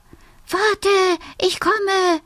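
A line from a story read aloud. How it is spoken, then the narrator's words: Little fox calling. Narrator (German): ruft der kleine Fuchs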